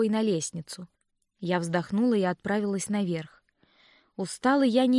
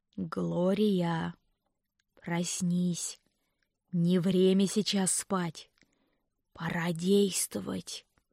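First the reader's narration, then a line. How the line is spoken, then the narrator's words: Eerie inhuman hiss. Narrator (Russian): прошипел он жутким, нечеловеческим голосом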